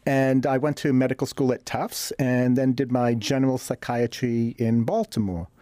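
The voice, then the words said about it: Boston accent. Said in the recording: “Originally from Boston, hence the accent.”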